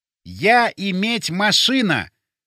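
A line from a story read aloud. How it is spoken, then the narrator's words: Loud and deliberate. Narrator (Russian): громко и раздельно проговорил я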